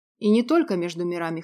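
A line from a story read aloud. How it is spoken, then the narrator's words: Amused snort. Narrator (Russian): хмыкнул Клим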